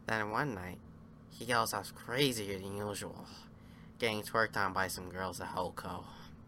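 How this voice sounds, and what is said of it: Imitation of the Joker's voice. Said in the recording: “That was my Joker impression ... Heath Ledger's Joker voice”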